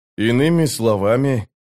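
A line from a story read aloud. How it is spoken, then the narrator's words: Through gritted teeth. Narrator (Russian): процедил Паран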